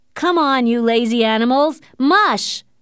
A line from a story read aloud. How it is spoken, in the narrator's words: shouted Hal